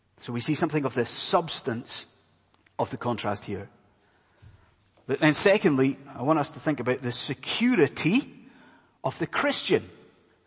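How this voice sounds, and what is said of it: Scottish accent. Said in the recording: “my accent's probably giving it away, but I am not from around these parts. ... I'm from a land far away called Scotland.”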